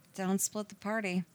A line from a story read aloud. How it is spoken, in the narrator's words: she mumbled